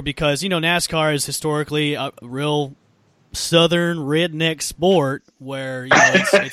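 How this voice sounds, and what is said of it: Strong regional American accent. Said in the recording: “I love the accent. ... I've got a lot of them. ... I don't even have to try.”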